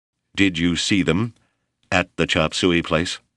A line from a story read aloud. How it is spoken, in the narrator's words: Hawksworth asked